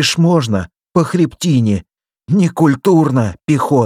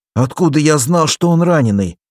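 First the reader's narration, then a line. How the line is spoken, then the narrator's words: Plain. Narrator (Russian): спросил Валерик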